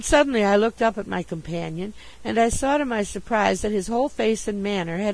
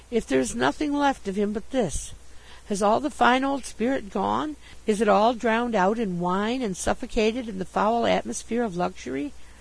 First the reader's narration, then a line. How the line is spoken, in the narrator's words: I murmured